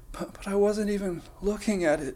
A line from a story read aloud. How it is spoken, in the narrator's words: she cried dramatically